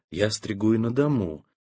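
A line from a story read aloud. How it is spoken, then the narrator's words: Whisper. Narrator (Russian): Прошептала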